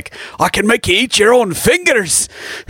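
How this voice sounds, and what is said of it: Put-on Irish accent, evil spirit. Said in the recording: “evil spirit ... that's got this Irish accent”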